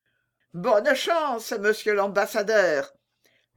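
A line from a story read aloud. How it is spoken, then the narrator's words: Called out. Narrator (French): lui cria le seigneur Grenardino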